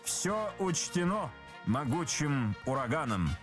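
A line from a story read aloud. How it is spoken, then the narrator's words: Plain. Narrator (Russian): сказал Обендер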